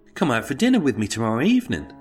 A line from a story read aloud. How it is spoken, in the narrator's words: quickly piped up with